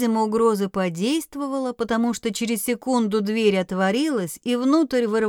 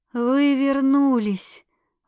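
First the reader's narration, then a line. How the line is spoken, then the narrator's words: Breathless exhale. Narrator (Russian): выдохнула Скила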